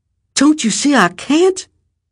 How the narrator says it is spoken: his mother cried

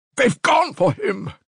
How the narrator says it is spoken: Katerina Ivanovna shouted to him

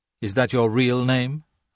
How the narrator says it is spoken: asked Kay

